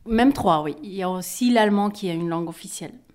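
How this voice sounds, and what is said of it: Slight Flemish Belgian accent. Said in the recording (French): “tu n'as pas un petit accent? ... je ne suis pas française ... je suis flamande d'origine, je suis belge”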